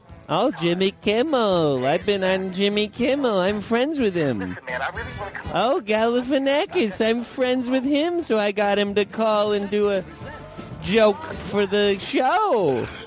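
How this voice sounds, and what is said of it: Imitates another person's voice. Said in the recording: “your impersonation of me”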